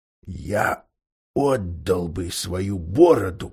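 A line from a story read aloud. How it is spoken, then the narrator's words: Whisper. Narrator (Russian): прошептал Поггин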